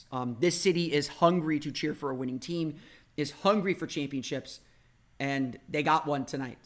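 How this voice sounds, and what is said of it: Slightly hoarse voice. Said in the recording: “you could probably tell I'm a little hoarse.”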